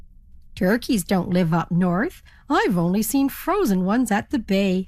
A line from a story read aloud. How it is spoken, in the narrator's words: laughed the ferry captain